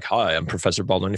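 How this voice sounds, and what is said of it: Low, very deep imitated voice. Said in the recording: “he had that low, super crazy deep voice.”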